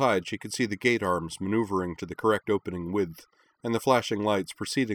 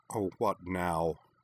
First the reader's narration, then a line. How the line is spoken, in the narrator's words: Ivanova grumbled